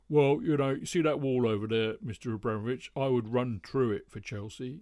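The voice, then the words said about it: Bad imitation of another person's voice. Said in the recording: “That was a very bad impersonation of Ron”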